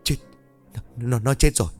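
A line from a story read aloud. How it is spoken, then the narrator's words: Terrified trembling stammer. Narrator (Vietnamese): Một tiến lại gần run rẩy, xanh mặt lại rồi lắp bắp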